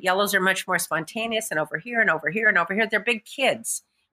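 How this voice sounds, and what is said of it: Very fast speech. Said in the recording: “You see how I'm talking really fast?”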